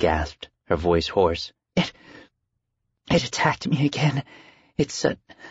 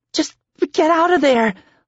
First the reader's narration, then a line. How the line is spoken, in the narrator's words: Laura cried